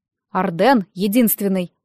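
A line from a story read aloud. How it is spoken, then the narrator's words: Stern. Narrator (Russian): сказал строго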